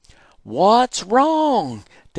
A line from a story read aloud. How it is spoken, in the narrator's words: Daddy yelled